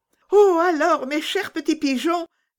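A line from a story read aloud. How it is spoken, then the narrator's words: Child's imploring plea. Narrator (French): dit la petite Gerda en joignant les mains, comme pour les implorer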